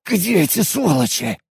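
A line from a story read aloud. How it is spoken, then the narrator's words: Hoarse rasp. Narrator (Russian): прохрипел Алекс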